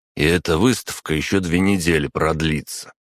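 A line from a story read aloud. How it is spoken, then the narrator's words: Grumbled. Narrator (Russian): проворчал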